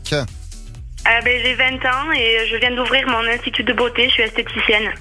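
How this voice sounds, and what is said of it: Southern French accent. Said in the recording (French): “est-ce que quand on est esthéticienne, on est obligé d'avoir cet accent ? ... Accent du sud”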